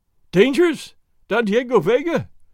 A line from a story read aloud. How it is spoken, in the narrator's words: the landlord cried, while tears ran down his fat cheeks